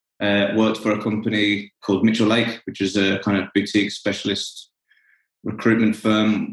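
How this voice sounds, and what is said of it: Non-Australian accent. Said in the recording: “As you can probably tell from my voice, I'm not from Australia originally”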